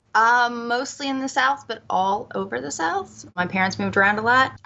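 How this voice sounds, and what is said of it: Thick Southern Alabama accent. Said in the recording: “Alabama originally, which you can tell from my thick accent.”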